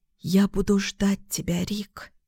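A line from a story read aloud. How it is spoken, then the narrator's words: Whisper. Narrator (Russian): шепотом сказала Лёля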